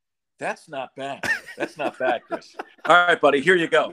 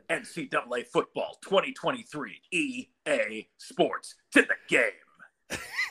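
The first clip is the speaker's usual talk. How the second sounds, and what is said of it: Imitates sports video game announcer. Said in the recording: “my impression, okay? So, Chris, who does a better impression? ... we're doing the impression. EA Sports. It's in the game.”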